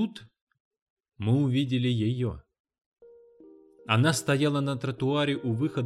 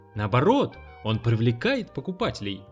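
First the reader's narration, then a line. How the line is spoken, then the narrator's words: Exclamation. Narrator (Russian): воскликнул человек на руках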